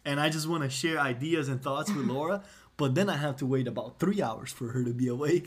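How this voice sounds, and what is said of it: Speaks with an accent. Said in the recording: “Sorry, it's the accent.”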